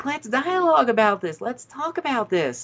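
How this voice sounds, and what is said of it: Imitated slight Southern twang. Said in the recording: “he does have a little bit of a southern twang, so I'm not just making fun”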